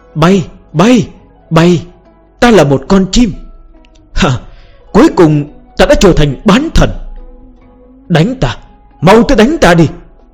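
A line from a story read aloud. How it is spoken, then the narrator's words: Frenzied shouting. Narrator (Vietnamese): Vân Tông điên cuồng hét lên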